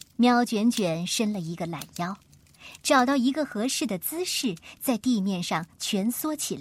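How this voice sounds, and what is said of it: Usual voice. Nothing is said of it.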